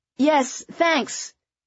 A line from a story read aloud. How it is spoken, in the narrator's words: Astrid shouted back